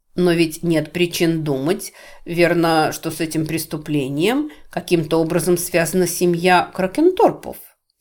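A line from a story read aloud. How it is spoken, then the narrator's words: Plain. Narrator (Russian): спросил он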